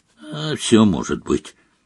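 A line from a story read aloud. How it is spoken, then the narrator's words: Gloomy. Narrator (Russian): мрачно ответил Фред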